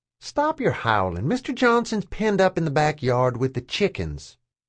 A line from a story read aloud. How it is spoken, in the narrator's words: I said calmly